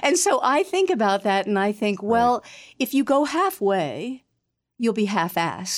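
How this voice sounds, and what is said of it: Usual voice. Nothing is said of it.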